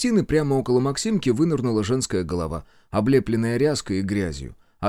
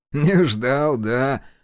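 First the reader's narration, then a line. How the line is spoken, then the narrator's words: Laughing. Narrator (Russian): засмеялся знаток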